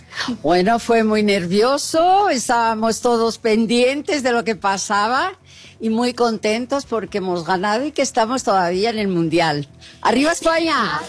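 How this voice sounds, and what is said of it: Spanish-accented Portuguese mixed with Spanish. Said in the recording (Portuguese): “como é bonito esse sotaque”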